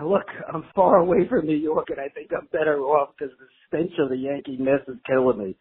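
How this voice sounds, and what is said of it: Brooklyn accent. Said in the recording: “the Brooklyn accent”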